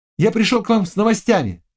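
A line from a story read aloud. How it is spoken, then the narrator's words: Ringing childlike voice. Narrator (Russian): сказал он полудетским звонким голосом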